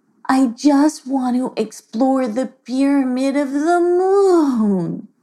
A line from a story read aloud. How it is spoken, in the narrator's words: she sighed